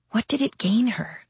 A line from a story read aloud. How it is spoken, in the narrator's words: Nathaniel asked in a whisper